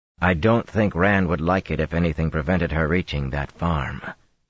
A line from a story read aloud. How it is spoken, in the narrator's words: Perrin said firmly